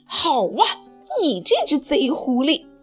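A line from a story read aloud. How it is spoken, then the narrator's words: Angry roar. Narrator (Chinese): 他冲着阿全怒吼道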